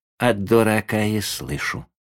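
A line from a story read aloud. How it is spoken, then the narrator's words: Calm curt old man. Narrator (Russian): спокойно отрезал дедушка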